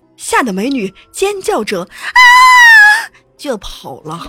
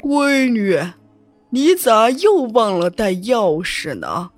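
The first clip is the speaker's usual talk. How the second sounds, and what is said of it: Eerie, sinister spooky voice. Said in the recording (Chinese): “从坟墓里边传出一个阴森森的声音说”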